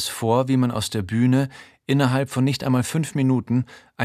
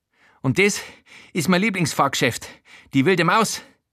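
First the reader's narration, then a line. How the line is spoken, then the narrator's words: Breathless panting. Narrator (German): keucht außer Atem von dem Rundgang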